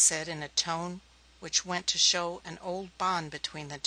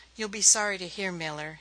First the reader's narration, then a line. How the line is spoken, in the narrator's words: he said, his voice was uninflected